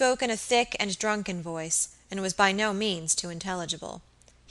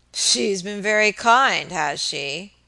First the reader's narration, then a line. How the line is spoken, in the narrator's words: muttered Mr